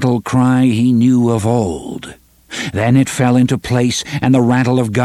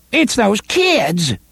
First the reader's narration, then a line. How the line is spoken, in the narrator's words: Roy exclaimed